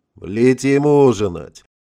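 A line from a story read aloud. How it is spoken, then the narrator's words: Cheerful announcement. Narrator (Russian): радостно заявил дядя Горигин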